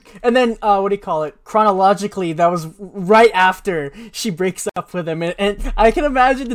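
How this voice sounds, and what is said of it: Usual voice. Nothing is said of it.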